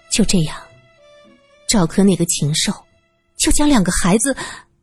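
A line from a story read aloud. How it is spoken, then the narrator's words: Low-voiced question. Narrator (Chinese): 他低声问道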